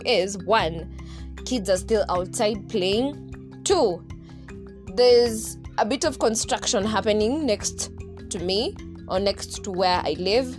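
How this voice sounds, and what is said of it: Shouting loudly. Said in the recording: “as you can hear from my voice, I'm so psyched, but that's false. The reason why I'm shouting ... So that's why I'm shouting.”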